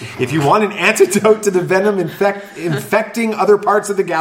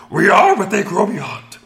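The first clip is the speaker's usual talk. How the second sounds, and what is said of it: Yoda impression. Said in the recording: “Had three different impressions ... You got Yoda”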